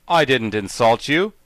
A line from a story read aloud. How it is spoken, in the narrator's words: protested Jack indignantly